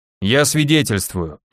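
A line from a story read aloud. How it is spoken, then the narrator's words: Deep bass voice. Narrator (Russian): пробасил второй, до того молчавший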